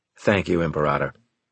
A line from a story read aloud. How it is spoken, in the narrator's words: Drusus said coldly